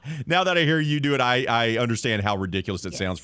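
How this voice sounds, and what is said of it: Usual voice. Nothing is said of it.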